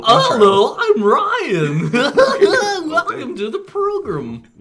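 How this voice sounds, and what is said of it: Put-on annoying silly voice. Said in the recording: “I just like that voice ... do a really annoying voice”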